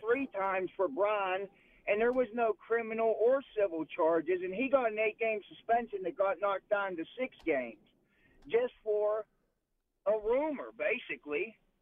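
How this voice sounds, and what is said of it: Strong Pittsburgh accent. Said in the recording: “accent. That's the Pittsburgh voice I grew up with my entire life ... you have the greatest Pittsburgh accent ever.”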